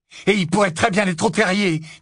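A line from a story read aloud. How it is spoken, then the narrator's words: Loud voice. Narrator (French): dit Ron d'une voix forte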